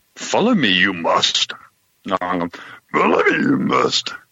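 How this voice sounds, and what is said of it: Bad Yoda impression. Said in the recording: “can you do a bad Yoda impersonation? ... No, a bad one. ... pretty horrible. ... pretty bad,”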